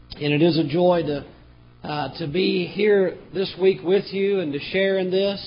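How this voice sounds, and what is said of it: Damaged, bad-sounding voice. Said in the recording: “I apologize for my voice. It sounds horrible”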